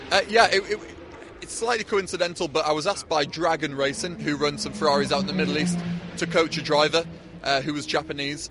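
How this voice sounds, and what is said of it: Northeast English accent. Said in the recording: “do Japanese people struggle with your northeast accent?”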